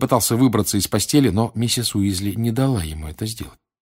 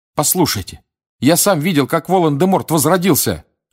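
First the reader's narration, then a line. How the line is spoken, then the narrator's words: Shouted. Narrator (Russian): крикнул Гарри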